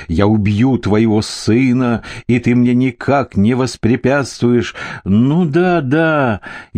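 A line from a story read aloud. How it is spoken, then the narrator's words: Laughing. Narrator (Russian): Я все так же, смеясь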